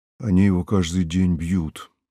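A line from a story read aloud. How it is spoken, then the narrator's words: Muffled tearful voice. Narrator (Russian): глухо сказал он, вытирая драным рукавом щеки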